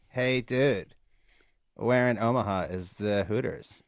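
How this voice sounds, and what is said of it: Pauly Shore impression. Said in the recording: “Here's my Paulie Shore impression ... That sucks.”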